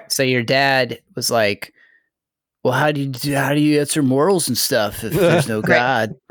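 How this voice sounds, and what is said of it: Imitates a father in California-surfer voice. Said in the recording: “your her dad impression ... Your guys' impressions just sound like California surfers”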